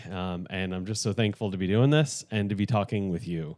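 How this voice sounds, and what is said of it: Excited, slightly fast speech. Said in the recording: “extra excitement in my voice today ... the tone of my voice is a little faster than normal”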